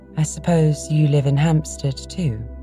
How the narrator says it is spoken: said kindly and attentively

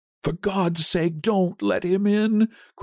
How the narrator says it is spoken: cried the old man, trembling

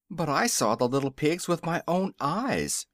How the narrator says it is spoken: exclaimed Zeb

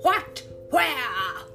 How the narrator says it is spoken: shouted Hook

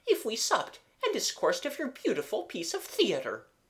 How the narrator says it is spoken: said Mademoiselle brightly

